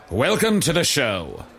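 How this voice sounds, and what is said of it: Old-timey ringmaster past his prime. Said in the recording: “what was that voice? ... It's sort of an old-timey ringmaster guy who, he's sort of, he's past his prime ... slowly stumbling towards the grave”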